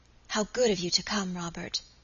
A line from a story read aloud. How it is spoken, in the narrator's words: she added in the same whispered tones